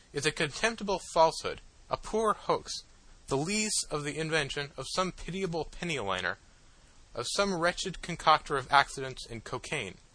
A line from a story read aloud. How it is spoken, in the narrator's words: I exclaimed